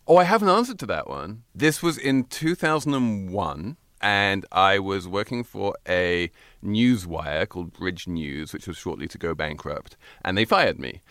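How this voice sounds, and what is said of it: Speaks with a noticeable accent. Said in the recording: “Don't you love his accent?”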